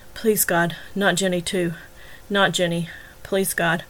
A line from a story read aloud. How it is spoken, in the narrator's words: He was murmuring over and over